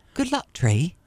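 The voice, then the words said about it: Put-on British accent. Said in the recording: “Can you do it in your British voice, though?”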